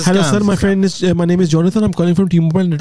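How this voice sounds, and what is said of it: Put-on Indian accent, scam caller voice. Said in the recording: “These Indian phone scammers ... from the accent that I hear”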